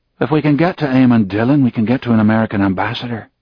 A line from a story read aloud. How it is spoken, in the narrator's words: Gavin Spencer said